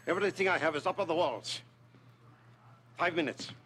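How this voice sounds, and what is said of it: Vague European-esque accent. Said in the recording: “I don't know what accent that's supposed to be, but I am a fan of it ... It's just vague enough that we're like, ooh, magic shop owner ... European-esque.”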